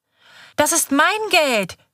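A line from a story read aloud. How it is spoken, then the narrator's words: Screaming, starting to cry. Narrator (German): schreit Kaiser und beginnt zu weinen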